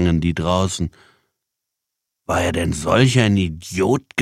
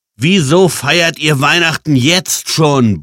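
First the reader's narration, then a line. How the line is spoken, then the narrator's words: Bellow. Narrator (German): brüllte Jan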